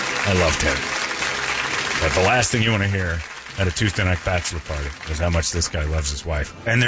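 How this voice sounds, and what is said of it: Usual voice. Nothing is said of it.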